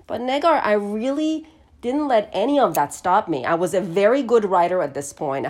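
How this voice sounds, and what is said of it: Iranian accent. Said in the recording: “I'm very proud of my accent... an Iranian accent”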